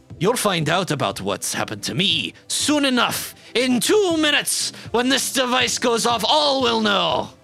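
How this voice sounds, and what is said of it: Put-on Scottish accent, Scrooge McDuck-like. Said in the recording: “That sounds like Scrooge McDuck ... the Skittermander version of Sean Connery ... my accent is terrible ... they're Scottish”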